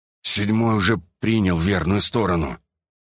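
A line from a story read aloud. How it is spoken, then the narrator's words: Angry, through clenched teeth. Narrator (Russian): гневно процедил я сквозь зубы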